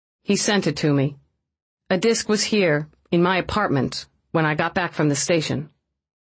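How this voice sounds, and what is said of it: Flat, careful delivery. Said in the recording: “Her voice was flat and careful.”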